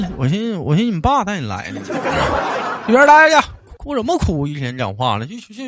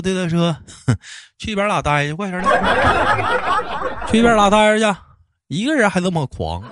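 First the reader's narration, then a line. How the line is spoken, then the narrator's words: Cheerful, laughing. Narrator (Chinese): 于是我笑呵呵的我说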